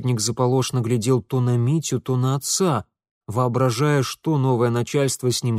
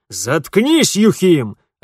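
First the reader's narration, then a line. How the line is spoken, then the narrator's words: Two men barking. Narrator (Russian): рявкнули оба полицейских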